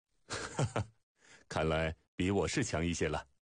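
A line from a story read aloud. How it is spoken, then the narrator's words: Laughing. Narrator (Chinese): 不禁笑道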